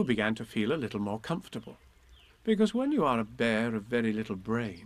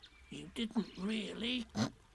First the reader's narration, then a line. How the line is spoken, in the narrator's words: whispered Piglet to Pooh, so as to comfort him